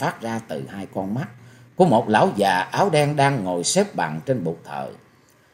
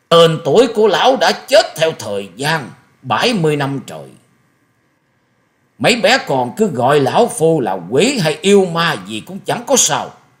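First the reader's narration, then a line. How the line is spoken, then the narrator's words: Booming voice after shrill laugh. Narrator (Vietnamese): Quái nhân áo đen bỗng cười lên mấy tiếng the thé như quỷ rú trong đêm sâu, rồi ầm ầm cất tiếng hỏi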